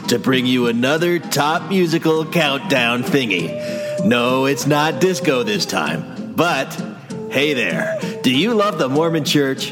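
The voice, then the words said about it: Bad Casey Kasem radio announcer impression. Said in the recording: “doing a bad Casey Kasem / Will Forte Saturday Night Live sports guy / radio announcer voice”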